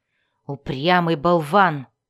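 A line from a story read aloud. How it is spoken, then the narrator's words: Angry. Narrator (Russian): зло сказал он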